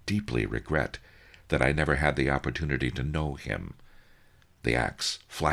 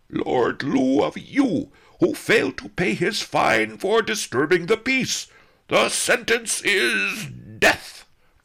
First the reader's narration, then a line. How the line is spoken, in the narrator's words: roared the sergeant-at-arms